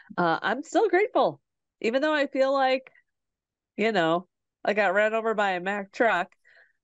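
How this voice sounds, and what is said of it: Raspy, rattling sick voice. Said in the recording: “raspy, rattling voice”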